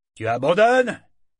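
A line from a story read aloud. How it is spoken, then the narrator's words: Bear-tamer shouting. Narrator (French): cria le montreur d'ours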